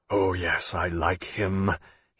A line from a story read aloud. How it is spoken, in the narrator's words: he said hoarsely